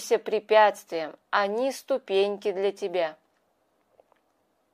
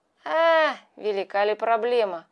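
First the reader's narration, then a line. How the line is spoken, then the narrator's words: Cat's snort. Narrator (Russian): хмыкнул кот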